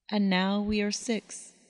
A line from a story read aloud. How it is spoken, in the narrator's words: murmured Thalia